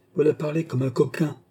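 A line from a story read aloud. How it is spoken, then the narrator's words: Thundering voice. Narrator (French): dit Bossier d'une voix tonnante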